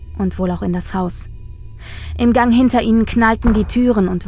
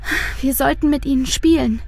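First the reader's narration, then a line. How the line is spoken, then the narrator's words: Sighing. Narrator (German): seufzt Luise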